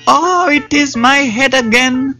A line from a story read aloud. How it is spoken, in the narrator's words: wailed the Jackal